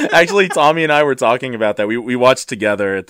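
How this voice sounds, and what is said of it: Usual voice. Nothing is said of it.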